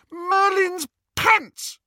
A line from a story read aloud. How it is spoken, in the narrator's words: She shrieked